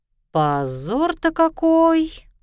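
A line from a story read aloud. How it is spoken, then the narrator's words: Wailing. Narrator (Russian): взвыла подлинная личность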